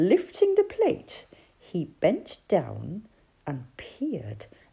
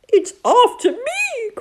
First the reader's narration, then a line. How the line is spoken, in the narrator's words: cried Toad